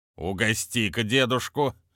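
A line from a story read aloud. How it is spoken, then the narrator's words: Commanding voice. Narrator (Russian): властным голосом сказал он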